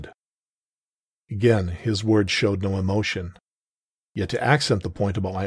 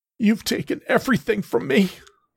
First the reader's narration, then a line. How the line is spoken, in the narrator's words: wailed through the pain